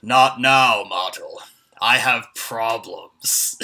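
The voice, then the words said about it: Imitates a movie character's voice. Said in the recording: “my own Tevye impression”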